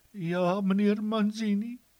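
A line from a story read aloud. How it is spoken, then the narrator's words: Sobbing. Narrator (Afrikaans): snik sy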